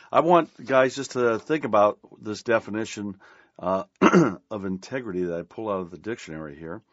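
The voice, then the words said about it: Strained, fading voice. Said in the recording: “I don't know why I feel like I'm losing my voice”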